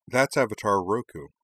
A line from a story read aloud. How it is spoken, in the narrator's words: said Korra